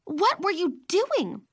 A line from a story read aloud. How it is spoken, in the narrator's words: Leah snapped at me